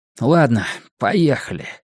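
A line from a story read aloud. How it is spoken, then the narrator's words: Muttering. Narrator (Russian): Наконец Коннор отвел глаза и пробормотал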